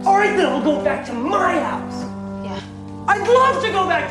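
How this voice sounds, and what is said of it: Shouting angrily. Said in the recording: “don't shout! ... Why are you shouting at me?”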